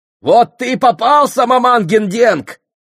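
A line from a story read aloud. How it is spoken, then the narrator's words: Soldiers shouting. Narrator (Russian): закричали солдаты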